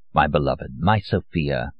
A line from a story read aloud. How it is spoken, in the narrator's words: I purr, as only the secret chief of the Okhrana can purr